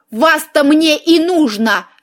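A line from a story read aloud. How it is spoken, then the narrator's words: Furious roar. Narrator (Russian): взревела я, как дракониха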